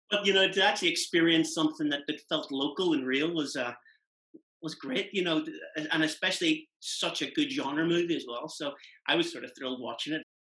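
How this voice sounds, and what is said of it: Derry Northern Irish accent. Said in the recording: “I'm a Derry man, so... I can tell the accent, yeah.”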